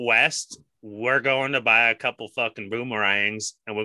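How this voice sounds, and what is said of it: Failed Australian accent sounding Southern American. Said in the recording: “Is that your Australian accent? ... no, that was like a ... southern, ... like some Kentucky ... whiskey accent. ... that is not ... how it's done.”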